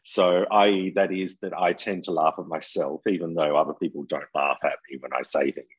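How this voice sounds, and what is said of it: Australian accent. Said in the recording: “as people can hear in your accent, you are not originally from France ... I'm Australian”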